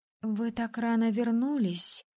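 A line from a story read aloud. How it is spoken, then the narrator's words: Timid servant. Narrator (Russian): робко начала служанка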